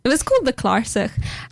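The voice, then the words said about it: Word said in a put-on accent. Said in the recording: “That was a good accent. ... Very nicely done. ... Can't say it without the accent”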